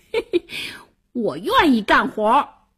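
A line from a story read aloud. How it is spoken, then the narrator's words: Laughing heartily. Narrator (Chinese): 王小二大笑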